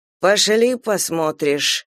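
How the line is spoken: Gloomy. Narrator (Russian): мрачно сказал рыцарь

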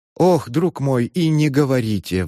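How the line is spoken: Sigh. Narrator (Russian): вздохнул адвокат

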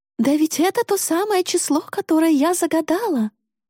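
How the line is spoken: Shrill squeal. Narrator (Russian): взвизгнула она

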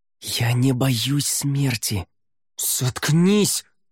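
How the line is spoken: Hissed. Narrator (Russian): Неррель прошипел

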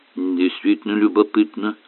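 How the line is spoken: Muttering. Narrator (Russian): пробормотал профессор Ярли

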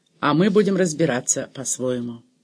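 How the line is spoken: Cold. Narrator (Russian): холодно сказал он

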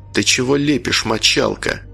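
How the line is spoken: Quiet. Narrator (Russian): тихо сказал он

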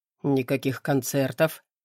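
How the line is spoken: Calm. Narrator (Russian): спокойно выдает Максим

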